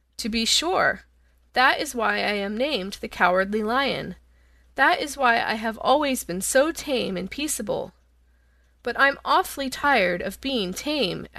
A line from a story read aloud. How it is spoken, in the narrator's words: added the lion, with a sigh